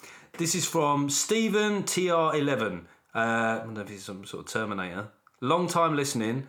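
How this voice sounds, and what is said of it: Usual voice. Nothing is said of it.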